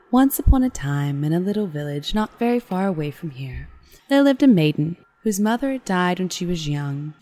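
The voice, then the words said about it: Creepy storytelling voice. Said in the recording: “in your creepy voice ... My creepy voice. I have a creepy voice.”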